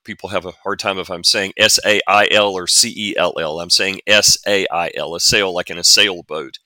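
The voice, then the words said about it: Southern US drawl. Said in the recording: “forgive my southern drawl here”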